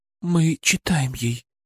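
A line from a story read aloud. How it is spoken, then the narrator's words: Quiet mother. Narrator (Russian): тихо сказала мать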